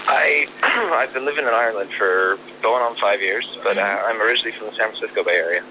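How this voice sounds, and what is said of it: American accent. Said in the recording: “I can hear from your accent ... I knew I could hear the accent”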